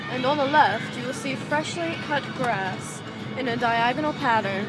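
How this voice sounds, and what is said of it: Pretentious rich woman voice. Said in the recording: “You killed it, though. That's ... What would you call that impersonation? ... Pretentious rich bitches.”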